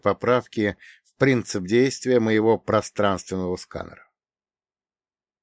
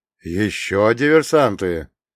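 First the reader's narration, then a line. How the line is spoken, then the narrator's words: Hoarse exhale. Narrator (Russian): сипло выдохнул Фролов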